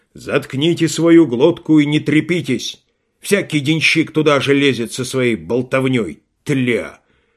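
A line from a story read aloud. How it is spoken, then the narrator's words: Rude shout. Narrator (Russian): он грубо крикнул на Швейка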